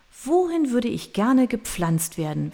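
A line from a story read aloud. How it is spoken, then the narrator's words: Asking herself aloud. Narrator (German): fragte sie sich laut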